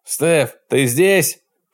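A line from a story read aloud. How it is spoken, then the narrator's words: Near shout. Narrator (Russian): Чуть не закричал он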